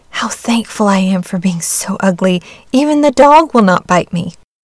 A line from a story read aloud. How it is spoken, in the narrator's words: sighed the duckling